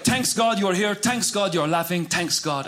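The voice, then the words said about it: Imitated thick Middle Eastern accent. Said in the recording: “My dad is from the Middle East ... my dad has a thick accent.”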